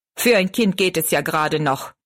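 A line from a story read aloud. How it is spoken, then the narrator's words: Angry. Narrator (German): meinte zornig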